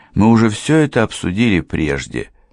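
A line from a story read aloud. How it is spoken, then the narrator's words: Calm. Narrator (Russian): спокойно сказала мисс Стрэттон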